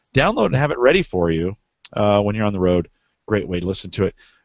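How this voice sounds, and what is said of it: Strained, failing voice. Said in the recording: “I'm losing my voice here.”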